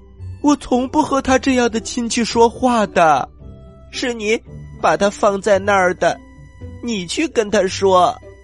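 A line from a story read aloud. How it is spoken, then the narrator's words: Snake shouting. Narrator (Chinese): 蛇大叫一声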